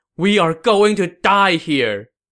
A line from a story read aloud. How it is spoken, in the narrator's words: cried